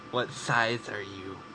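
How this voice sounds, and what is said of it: Creepy put-on voice. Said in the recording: “I've got a pretty good, creepy voice.”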